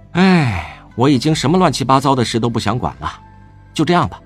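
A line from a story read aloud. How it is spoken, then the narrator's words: Heavy sighing. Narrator (Chinese): 魏无羡难得长吁短叹道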